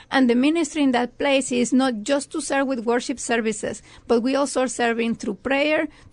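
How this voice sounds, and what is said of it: Mexican accent in English. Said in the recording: “I'm listening to your accent a little bit... I'm from Mexico.”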